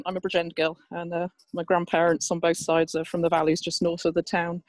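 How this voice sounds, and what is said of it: Southeast English accent. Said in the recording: “despite my accent ... this side of the River Severn and moved to the southeast of England ... that's why I've got this daft accent”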